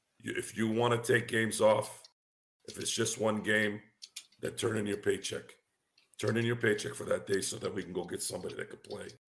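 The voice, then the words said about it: Voice sounds rough and sick. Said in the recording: “my voice isn't as bad as it sounds ... Just shouting for the Steelers ... I think I caught something”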